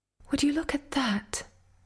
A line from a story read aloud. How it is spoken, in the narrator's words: I remarked, wistfully